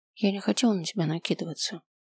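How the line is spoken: Quiet. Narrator (Russian): тихо сказала я

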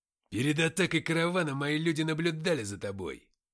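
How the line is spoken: Deep bass voice. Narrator (Russian): пробасил

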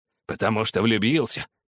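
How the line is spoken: Grumbling. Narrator (Russian): проворчал Скрудж таким тоном

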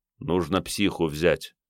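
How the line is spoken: Muttered. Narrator (Russian): пробормотал Марик

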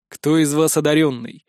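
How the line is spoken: Deep bass voice. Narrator (Russian): пробасил мужик

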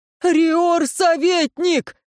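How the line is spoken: Desperate shout. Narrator (Russian): с отчаянием выкрикнул Власт

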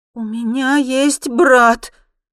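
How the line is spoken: Loud, self-reassuring statement. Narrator (Russian): произношу громко, как будто нуждаюсь в звуке собственного голоса

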